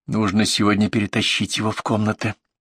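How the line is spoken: Audible whisper. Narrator (Russian): я шептала, надеясь, что услышит

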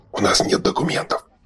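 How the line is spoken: Whisper. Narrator (Russian): шепнул Шорох Берду

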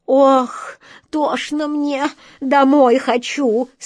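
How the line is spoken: Moaning. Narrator (Russian): стонала черная кошка

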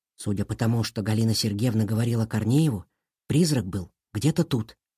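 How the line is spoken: Hissed into ear. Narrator (Russian): прошипел Илья на ухо Сашке

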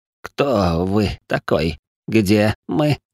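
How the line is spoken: Hoarse voice. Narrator (Russian): раздаётся сиплый голос

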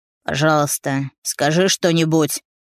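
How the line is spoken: Hoarse whisper. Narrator (Russian): шепчет он хрипло

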